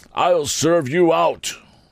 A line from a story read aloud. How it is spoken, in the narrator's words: barbarously bellowed